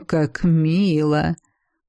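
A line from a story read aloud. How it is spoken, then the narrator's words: Drawling. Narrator (Russian): протянул ректор Айнбиндер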